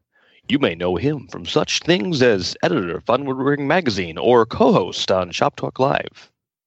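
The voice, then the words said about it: Troy McClure impression. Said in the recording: “my worst Troy McClure impression”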